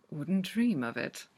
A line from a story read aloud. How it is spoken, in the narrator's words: he murmurs